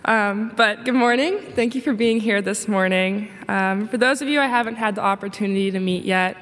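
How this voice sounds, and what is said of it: Slightly raspy voice. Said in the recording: “I'm getting over being a little sick, so if I sound a little raspy”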